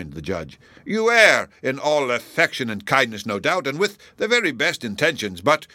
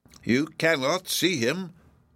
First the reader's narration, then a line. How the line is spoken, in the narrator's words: answered Hepzibah